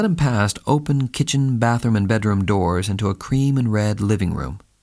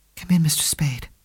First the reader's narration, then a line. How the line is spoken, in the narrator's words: said in a hushed, timid voice